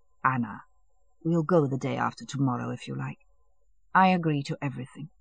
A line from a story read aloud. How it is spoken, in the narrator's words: he said softly